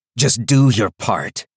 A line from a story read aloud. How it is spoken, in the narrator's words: he said roughly